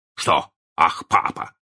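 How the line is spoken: Stern question. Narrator (Russian): спросил мистер Дарлинг строго

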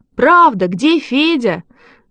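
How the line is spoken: Children shouting. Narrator (Russian): закричали ребята

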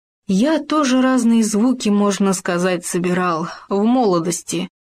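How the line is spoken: Sighing. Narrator (Russian): вздохнул он

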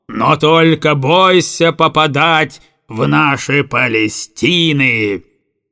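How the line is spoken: Howl. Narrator (Russian): Взвыл угольщик

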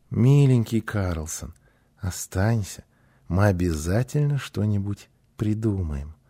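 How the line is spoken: Gentle pleading. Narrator (Russian): Гунила ласково попросила

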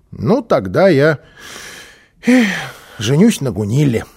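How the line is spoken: Small child sighing. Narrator (Russian): вздохнул малыш

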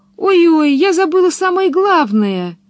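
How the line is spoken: Exclaimed. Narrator (Russian): воскликнула она

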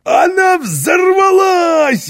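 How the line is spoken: Delighted shout. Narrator (Russian): в восторге закричал Карлсон, словно ему удалось проделать с паровой машиной самый интересный фокус

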